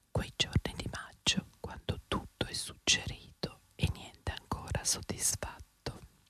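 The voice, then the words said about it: Whispered line of poetry. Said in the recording (Italian): “sussurrato ... Sussurra.”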